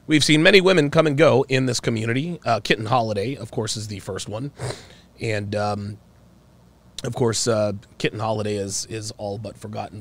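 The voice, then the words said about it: Subdued voice, slightly unwell. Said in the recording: “My voice is going to be a little bit, a little bit subdued, just a little bit. ... I am a little under the weather.”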